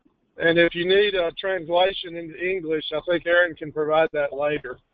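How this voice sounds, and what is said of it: Texan accent. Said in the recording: “my accent is not transplanted New Jersey. I am actually a native Texan.”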